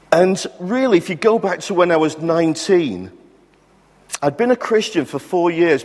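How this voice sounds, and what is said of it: Blackpool English accent. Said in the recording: “my story really goes back to my time in Blackpool, if you're wondering where the accent comes from.”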